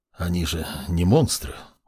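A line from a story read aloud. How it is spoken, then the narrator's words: Mumble. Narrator (Russian): пробормотал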